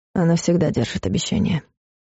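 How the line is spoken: Quiet reply. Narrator (Russian): тихо ответил Клайв

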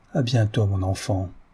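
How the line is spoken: Plain. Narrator (French): dit-il

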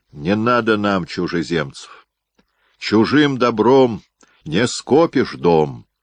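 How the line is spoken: Loud. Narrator (Russian): громко проговорил Андрей Чохов

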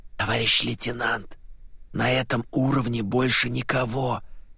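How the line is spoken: Drawling whisper. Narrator (Russian): тягучим шепотом сообщил Левашов

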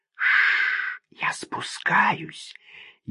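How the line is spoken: Barely audible. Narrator (Russian): еле слышно прозвучало

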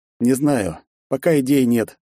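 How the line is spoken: Heavy sighing reply. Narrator (Russian): тяжело вздохнул я в ответ

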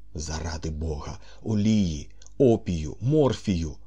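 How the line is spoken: Groaned. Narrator (Ukrainian): простогнав

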